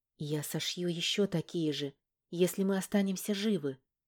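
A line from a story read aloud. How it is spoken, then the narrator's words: Quiet, suppressing a smile. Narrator (Russian): тихо сказала и сдержала улыбку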